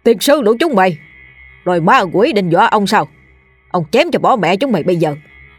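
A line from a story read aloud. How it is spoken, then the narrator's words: Loud bellowing old man. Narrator (Vietnamese): lão liền rút ra rồi quát tháo ông ổng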